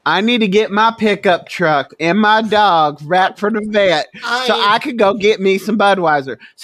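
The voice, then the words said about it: Put-on Southern US accent. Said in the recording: “can ... do a southern accent?”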